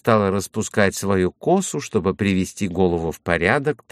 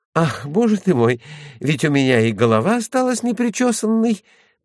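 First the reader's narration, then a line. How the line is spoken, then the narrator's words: Moaning. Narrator (Russian): простонала Кайса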